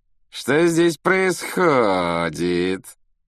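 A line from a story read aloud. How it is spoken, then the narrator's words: Mocking affected drawl. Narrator (Russian): насмешливо проговорил Малфой, манерно растягивая слова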